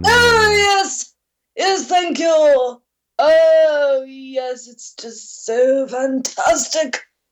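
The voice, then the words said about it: Very posh character voice. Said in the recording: “speaking in a very posh voice, ... the new character that she's created”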